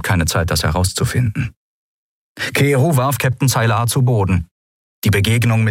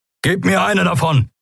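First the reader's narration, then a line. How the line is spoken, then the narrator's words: Called out. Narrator (German): rief Kero Endriel zu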